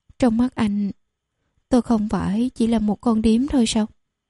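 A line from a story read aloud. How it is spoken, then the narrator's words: Trembling yet smiling. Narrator (Vietnamese): cơ thể vẫn đang run rẩy, nhưng cô vẫn cười rất xinh đẹp và nói tiếp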